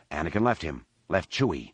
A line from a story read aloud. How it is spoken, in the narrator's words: Han spat